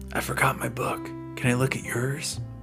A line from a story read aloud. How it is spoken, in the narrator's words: whispered